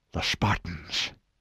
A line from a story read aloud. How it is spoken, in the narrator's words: Hood whispered